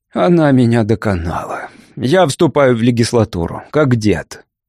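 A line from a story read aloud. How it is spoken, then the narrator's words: Glum. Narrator (Russian): Джордж уныло произнес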